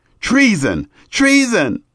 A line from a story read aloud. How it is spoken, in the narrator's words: Athaliah tore her clothes, and cried